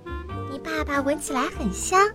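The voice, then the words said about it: Soft whisper. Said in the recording (Chinese): “小声地说”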